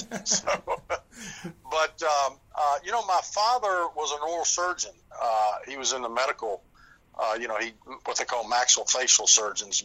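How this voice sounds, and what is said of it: American Southern accent. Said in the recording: “You come across with a Southern charm ... your reference to the Southern accent”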